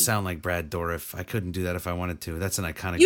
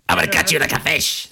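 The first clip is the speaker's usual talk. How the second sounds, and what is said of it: Imitates a horror-movie voice changer voice. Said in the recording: “your voice sounded like Chucky ... that was the voice changer”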